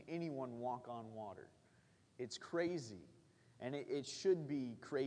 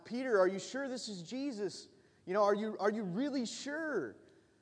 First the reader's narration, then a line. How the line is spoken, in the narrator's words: the rest of the guys were yelling out